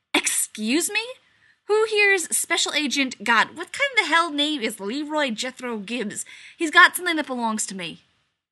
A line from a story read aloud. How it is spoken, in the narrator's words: an irritated voice that snaps out every word asking